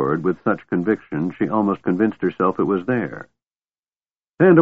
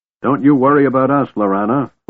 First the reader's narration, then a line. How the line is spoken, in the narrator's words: Flint roared